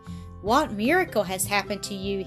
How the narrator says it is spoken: he exclaimed

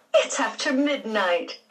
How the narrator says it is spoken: Aunt Daisy said with a laugh

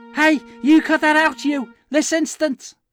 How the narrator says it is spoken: Fists shaking, she shouted

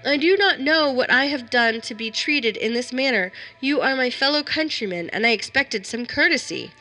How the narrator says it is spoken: I cried

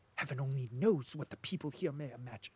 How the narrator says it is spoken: muttered Talyanin

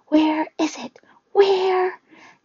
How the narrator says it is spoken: The other people on the bus were screaming, cowering in their seats

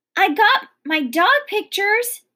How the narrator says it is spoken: screamed Sweetie Pie

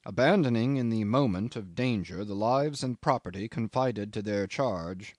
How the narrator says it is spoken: went on evenly

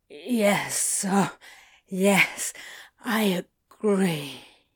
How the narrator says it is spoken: he panted

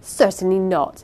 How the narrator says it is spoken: interposed Rosamond sharply

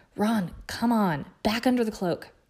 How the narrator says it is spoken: Hermione panted

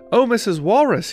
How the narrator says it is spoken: cried

